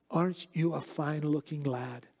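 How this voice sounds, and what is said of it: Scottish accent. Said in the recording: “in that Scottish accent”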